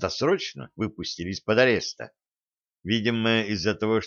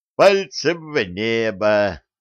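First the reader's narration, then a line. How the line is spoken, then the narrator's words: Roaring laughter. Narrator (Russian): захохотал Маевский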